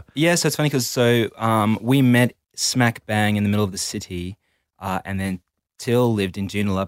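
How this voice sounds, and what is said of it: South African accent. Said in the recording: “So you've got an English accent? ... I'm actually South African. ... Well, you got an accent.”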